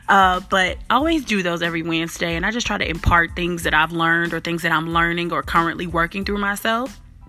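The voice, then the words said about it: Slight Southern Memphis twang. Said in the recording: “I'm a little country, even though I'm from Chicago, but definitely got some Memphis twang.”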